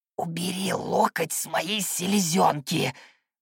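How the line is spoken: Snake-like hiss. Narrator (Russian): прошипел так, словно был гадюкой, а не золотой рыбкой

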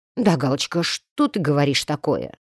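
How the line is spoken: Muttered, neighbor. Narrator (Russian): пробормотал сосед

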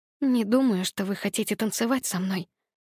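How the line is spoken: Whispering. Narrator (Russian): прошептала я

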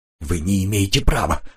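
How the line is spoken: Muttered. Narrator (Russian): пробормотал майор

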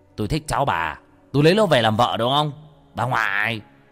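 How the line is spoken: Harsh, emphatic voice. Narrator (Vietnamese): nó gằn giọng

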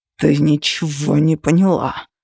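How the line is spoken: Through gritted teeth. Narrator (Russian): процедил сквозь зубы Тейт

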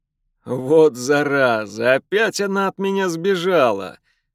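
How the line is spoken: Laughing. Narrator (Russian): рассмеялся Райлан

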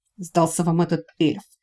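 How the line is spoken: Through gritted teeth. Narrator (Russian): сквозь зубы процедил Лэри

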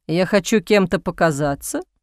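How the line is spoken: Laughing. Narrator (Russian): Бастиан рассмеялся

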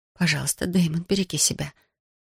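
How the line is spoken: Whispered. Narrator (Russian): прошептала Софи

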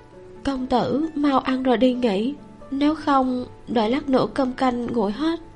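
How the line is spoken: Quiet, nervous voice. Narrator (Vietnamese): Bàn tay cầm đũa hơi run run, giọng nói cũng nhỏ hơn

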